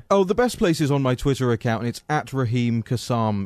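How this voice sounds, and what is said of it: Charming accent. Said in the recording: “with a charming accent.”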